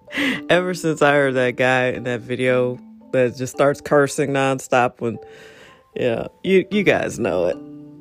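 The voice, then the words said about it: Deep, slightly hoarse voice. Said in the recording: “Got that bass. Got a little bass in my voice this morning. A little hoarse, too. ... Allergies, pollen.”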